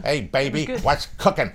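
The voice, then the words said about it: Put-on American accent. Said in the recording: “I wonder if they like ... American accent.”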